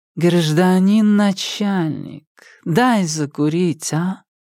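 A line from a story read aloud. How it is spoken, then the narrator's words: Deliberately nasal drawl. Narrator (Russian): нарочито гнусаво протянула она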